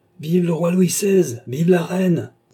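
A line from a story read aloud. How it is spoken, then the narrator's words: Shrill, insulting shout. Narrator (French): cria le jeune homme d'une voix stridente, comme s'il insultait cette majesté nouvelle au lieu de la saluer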